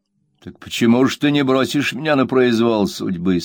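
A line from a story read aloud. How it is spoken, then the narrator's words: Plain. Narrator (Russian): спросил он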